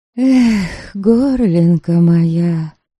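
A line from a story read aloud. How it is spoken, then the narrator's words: Sighing. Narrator (Russian): Добролюта вздохнула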